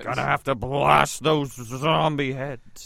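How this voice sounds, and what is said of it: Futurama character impression. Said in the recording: “That's a good Futurama impression.”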